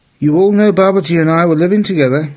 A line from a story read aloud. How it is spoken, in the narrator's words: she pleaded